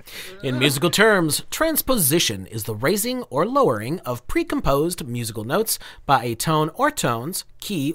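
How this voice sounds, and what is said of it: Professional voiceover narration voice. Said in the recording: “put on my voiceover voice”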